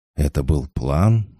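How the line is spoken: Breathed out. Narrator (Russian): выдохнул Денис

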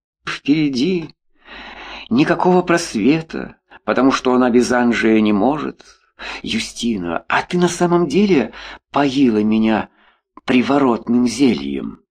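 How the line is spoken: Sudden question, then laughter. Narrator (Russian): Вдруг спросил Анжей и рассмеялся

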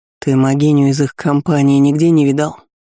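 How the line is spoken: Gloomy mutter. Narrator (Russian): Мрачно буркнул

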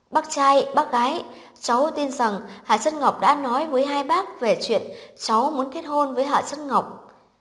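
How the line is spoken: Smiling. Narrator (Vietnamese): Chu Cẩn Vũ lúc này mỉm cười nói với cha mẹ Hạ Chân Ngọc

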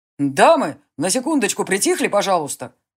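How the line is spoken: Shout. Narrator (Russian): крикнул Джари

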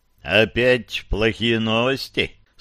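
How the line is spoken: Plain. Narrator (Russian): спросил Мэнни

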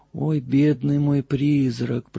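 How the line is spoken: Whispered. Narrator (Russian): прошептала она

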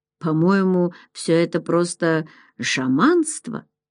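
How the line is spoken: Muttered. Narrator (Russian): пробормотал Джордж

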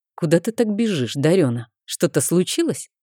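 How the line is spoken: Stern question. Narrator (Russian): спросил он, строго

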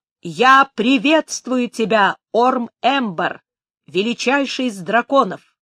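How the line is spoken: Clear loud formal greeting. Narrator (Russian): Сказал отчетливо и громко, как подобает одному принцу приветствовать другого

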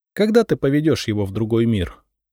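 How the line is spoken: Plain. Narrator (Russian): спросила меня Лиза

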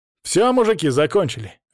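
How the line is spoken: Bark. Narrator (Russian): рявкнул Паша

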